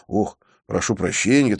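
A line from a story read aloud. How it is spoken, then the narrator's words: Hurried. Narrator (Russian): торопливо добавил я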